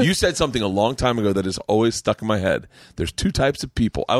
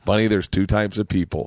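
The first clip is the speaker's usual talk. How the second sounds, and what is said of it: Imitates another person's voice. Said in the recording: “I want to do your impression of you.”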